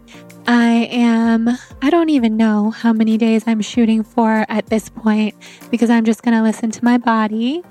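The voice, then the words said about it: Weak, tired voice. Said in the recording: “excuse my voice. It's a little weak or maybe very weak. I'm on day 9 of my water fast”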